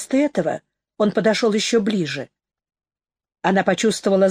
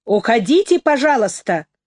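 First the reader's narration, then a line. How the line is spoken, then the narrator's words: Loud. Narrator (Russian): громко произнесла Нэнси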